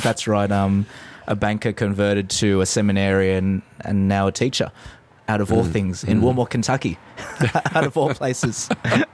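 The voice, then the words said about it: Australian accent. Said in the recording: “I detect a little bit of an accent there ... you're from Australia”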